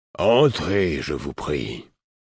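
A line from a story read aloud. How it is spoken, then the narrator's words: Deep pleasant voice. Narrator (French): répondit-on d'une voix grave et agréable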